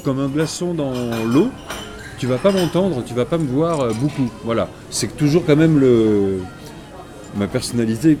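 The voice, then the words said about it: Slight southwestern French accent. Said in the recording (French): “À l'accent, t'es pas parisien. ... Je suis d'origine du sud, ... sud-ouest. ... ça se perd pas, hein. ... Petites consonances, là.”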